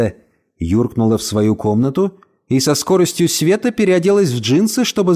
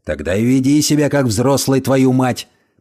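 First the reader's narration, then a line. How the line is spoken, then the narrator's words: Grumbling. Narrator (Russian): проворчал Альф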